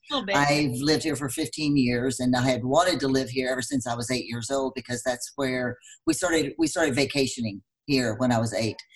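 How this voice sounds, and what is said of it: Texas accent. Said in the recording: “I'm from Texas, as you probably can tell by my accent.”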